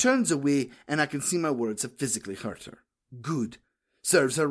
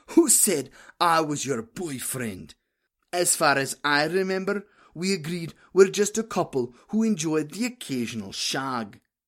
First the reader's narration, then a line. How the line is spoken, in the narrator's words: I wheeze in between drags